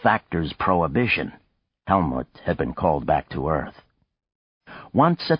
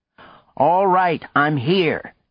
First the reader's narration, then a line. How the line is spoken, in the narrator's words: he shouted